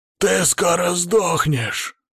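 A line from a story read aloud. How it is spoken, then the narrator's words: Gloating monstrous growl. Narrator (Russian): предвкушающе прорычал урод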